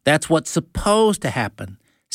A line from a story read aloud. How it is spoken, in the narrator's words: said Isaac sighingly